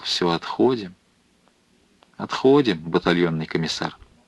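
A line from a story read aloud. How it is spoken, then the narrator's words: Quiet, anguished. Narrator (Russian): вдруг тихо, с тоской проговорил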